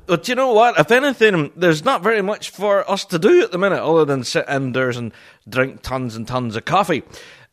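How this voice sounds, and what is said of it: Thick Northern Irish accent, fast. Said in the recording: “talking at 100 miles an hour in a very thick Northern Irish accent”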